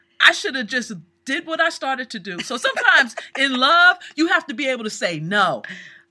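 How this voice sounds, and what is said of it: Yelling, loud voice. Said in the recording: “Why are you yelling?”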